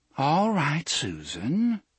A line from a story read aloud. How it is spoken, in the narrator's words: she said, in a calm, modulated voice